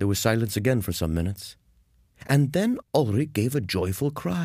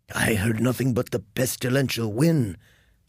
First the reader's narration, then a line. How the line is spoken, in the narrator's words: said Georg hoarsely